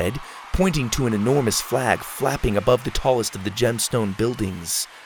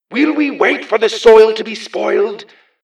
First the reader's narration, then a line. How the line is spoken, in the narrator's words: the man shouted